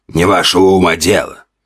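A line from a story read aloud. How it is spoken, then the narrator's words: Growl. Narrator (Russian): рыкнул торговец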